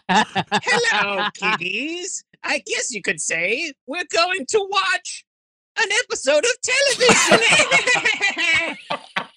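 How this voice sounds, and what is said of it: Spooky Crypt Keeper character voice. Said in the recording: “It's not a good Crypt Keeper impression,”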